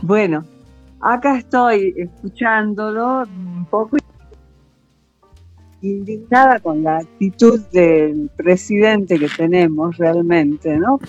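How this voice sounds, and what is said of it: Salta regional Argentine accent. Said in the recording (Spanish): “¿Cómo me gusta la tonada salteña? ... así nomás hablamos los salteños”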